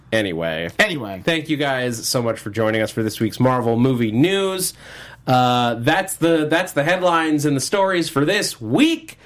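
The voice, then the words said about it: Hoarse, fading voice. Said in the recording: “my voice is leaving me”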